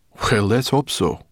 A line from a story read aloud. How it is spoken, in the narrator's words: muttered Sorrel